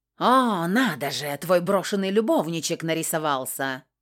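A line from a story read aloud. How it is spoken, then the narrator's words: Brittle, vicious growl, pained. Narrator (Russian): Ломко и шокирующе злобно прорычал Макгрегор, сгибаясь, как от боли в животе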